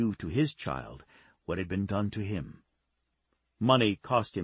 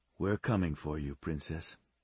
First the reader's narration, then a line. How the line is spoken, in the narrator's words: he whispered to the night